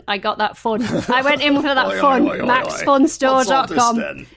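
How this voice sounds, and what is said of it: Put-on Yorkshire accent. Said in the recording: “In a Yorkshire accent”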